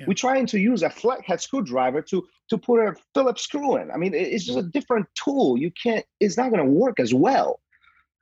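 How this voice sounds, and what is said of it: Slight Polish accent. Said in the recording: “I hear uh, you know a little bit of an accent ... I was born in Poland.”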